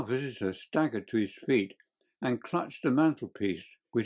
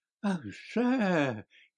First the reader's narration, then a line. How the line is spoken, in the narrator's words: he cried